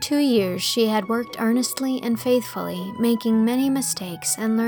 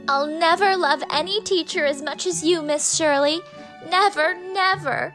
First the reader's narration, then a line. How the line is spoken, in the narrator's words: the childish wail